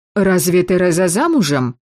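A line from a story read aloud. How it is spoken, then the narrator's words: Exclamation. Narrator (Russian): воскликнула мать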